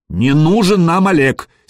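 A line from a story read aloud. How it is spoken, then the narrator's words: Angry. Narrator (Russian): сердито проговорил Гадимир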